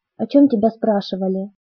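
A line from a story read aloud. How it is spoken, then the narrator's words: Quiet. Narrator (Russian): Я тоже говорила тихо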